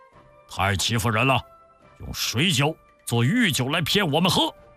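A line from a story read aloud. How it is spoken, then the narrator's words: Loud angry cursing. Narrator (Chinese): 鲁智深高声叫骂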